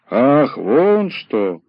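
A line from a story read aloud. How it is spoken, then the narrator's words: Drawn-out drawl. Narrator (Russian): протянул Задов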